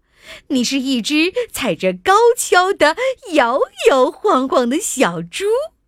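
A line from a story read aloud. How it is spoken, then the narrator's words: Laughing. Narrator (Chinese): 斑马大笑着说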